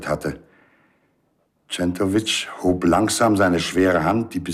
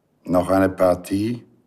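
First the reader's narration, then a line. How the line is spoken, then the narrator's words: Plain. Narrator (German): fragte er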